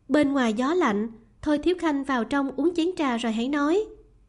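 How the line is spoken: Smiling speech. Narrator (Vietnamese): Lý Doanh mỉm cười, nói

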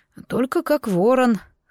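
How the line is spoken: Hoarse sleepy voice. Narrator (Russian): спросонья голос звучал с хрипотцой

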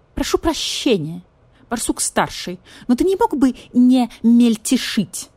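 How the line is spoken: Irritated question. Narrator (Russian): раздраженно спросил стервятник

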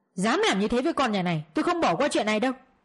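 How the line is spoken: Father's angry voice. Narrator (Vietnamese): giọng của bố bên ngoài giận dữ

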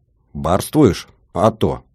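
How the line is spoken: Plain. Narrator (Russian): ответил я

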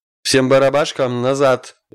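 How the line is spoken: Barked command. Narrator (Russian): рявкнул командующий

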